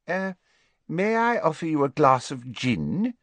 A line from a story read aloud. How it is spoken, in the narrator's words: she said in an extra refined voice